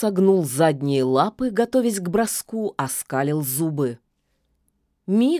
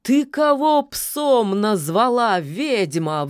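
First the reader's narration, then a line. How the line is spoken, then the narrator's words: Offended wolf's howl. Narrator (Russian): взвыл от обиды серый волк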